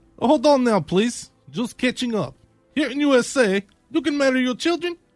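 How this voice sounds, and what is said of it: Put-on Russian accent. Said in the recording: “your pretty Russian accent”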